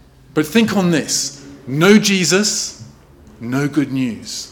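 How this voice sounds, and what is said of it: Usual voice. Nothing is said of it.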